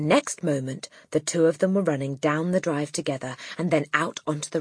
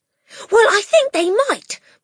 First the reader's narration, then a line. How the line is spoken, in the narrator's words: Matilda cried